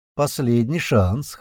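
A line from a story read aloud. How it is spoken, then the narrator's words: Scoffing. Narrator (Russian): хмыкнул Леший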